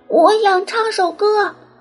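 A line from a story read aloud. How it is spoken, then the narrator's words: Loud, bold. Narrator (Chinese): 小鸭子多想像大家一样勇敢，大声说出来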